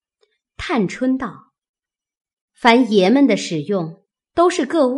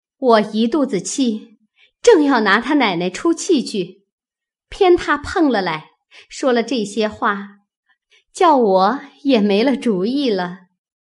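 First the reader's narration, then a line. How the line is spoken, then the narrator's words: Laughing. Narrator (Chinese): 探春笑道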